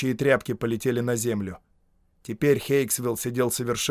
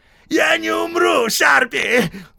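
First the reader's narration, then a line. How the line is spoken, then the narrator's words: Pleading howl. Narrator (Russian): умоляюще взвыл Хейксвилл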